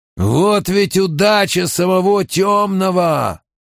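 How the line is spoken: Growling player. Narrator (Russian): прорычал еще один игрок

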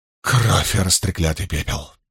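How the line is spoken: Muttering. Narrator (Russian): пробормотала Илэйн

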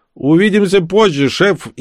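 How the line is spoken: Shouted. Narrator (Russian): крикнул

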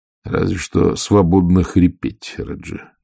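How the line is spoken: Sigh. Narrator (Russian): вздохнул Ваймс

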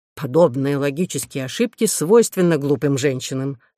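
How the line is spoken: Plain. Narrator (Russian): сказал Хирон

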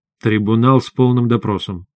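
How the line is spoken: Gloomy. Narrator (Russian): мрачно сказал я

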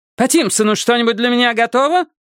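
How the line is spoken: Barked. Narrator (Russian): Рявкнула она Хардейкеру

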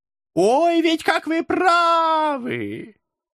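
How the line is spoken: Loud reply. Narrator (Russian): Громко откликнулся черт

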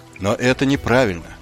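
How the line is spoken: Even voice. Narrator (Russian): ровным голосом произнес Маркову

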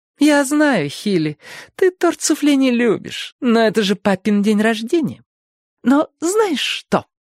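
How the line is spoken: Condescendingly cheerful baby voice. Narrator (Russian): Мать Хилли вечно разговаривала с ним унизительно бодрым детским голоском, как будто он еще ходил в детский садик

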